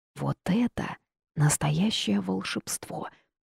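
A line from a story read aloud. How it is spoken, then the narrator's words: Whisper. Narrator (Russian): прошептала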